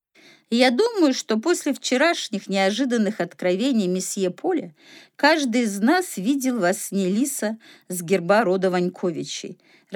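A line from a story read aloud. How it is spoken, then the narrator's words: Laughing. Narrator (Russian): рассмеялся доктор Бертье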